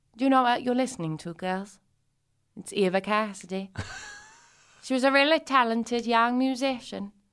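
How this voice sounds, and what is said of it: Posh upper-class imitated voice. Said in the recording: “I make my mum sound as if she's from Tyler Magazine.”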